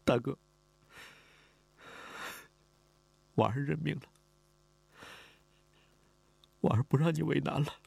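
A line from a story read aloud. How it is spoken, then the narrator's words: Crying. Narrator (Chinese): 李婉儿哭了，他哭着说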